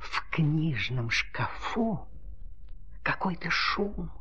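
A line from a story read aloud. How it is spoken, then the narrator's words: Pen whispering. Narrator (Russian): прошептала ручка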